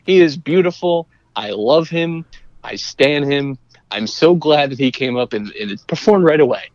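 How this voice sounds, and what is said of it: Usual voice. Nothing is said of it.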